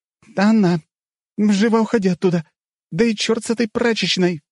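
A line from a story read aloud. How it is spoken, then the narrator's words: Shrieked. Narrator (Russian): взвизгнула Злата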